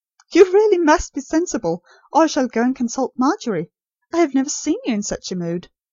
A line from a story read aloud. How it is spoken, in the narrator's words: said Nurse Rosemary, laughing in spite of herself